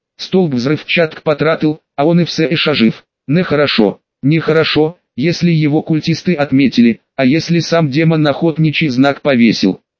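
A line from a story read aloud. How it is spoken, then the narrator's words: Plain. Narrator (Russian): сказал Угротор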